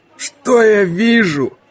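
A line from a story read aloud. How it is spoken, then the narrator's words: Mocking hoarse drawl. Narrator (Russian): насмешливо протянул сиплый голос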